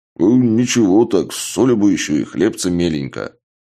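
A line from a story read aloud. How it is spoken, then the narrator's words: Mumbled while chewing. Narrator (Russian): Чак, сочно жуя, прошамкал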